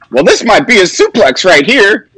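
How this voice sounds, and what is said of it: Imitates another person's voice. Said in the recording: “That was my Taz impression, by the way, is spot on.”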